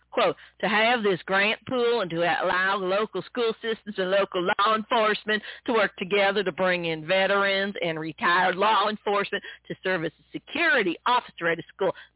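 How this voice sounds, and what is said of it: Imitation of Senator Blackburn's accent. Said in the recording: “to quote Senator Blackburn, I'm going to try and imitate her idiot accent here”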